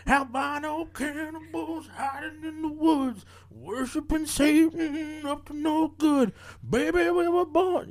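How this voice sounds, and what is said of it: Imitates another person's voice. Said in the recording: “your Bruce impression?”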